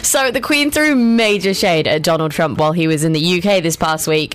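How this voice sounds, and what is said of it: English accent. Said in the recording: “she's got an English accent”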